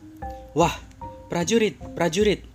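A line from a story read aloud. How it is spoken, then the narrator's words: Joyful shout. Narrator (Indonesian): teriaknya dengan kegirangan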